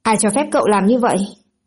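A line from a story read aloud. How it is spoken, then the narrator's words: Angry. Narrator (Vietnamese): Trưởng nhà giam tức giận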